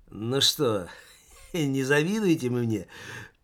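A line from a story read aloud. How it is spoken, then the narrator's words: Drunken chuckle. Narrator (Russian): пьяно хохотнул Таборский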